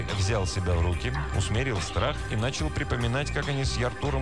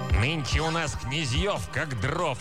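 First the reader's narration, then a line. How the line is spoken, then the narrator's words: Snapping retort. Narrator (Russian): огрызнулся вместо водяного коня водяной черт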